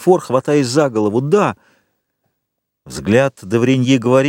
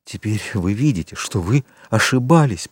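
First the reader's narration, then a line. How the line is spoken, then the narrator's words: Whisper. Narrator (Russian): прошептал Вильфор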